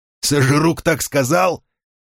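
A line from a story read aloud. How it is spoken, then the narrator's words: Laughing. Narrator (Russian): Финолео рассмеялся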